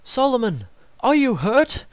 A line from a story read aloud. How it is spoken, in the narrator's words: they cried